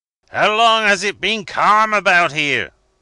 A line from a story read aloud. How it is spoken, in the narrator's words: roared the captain of the Java